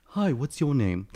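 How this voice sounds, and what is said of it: Put-on British accent. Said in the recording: “That's my British accent ... Oh, that's pretty ... Best accent I can do”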